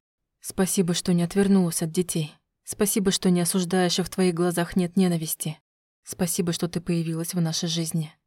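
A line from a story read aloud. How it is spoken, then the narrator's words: Whispering. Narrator (Russian): прошептал Альвир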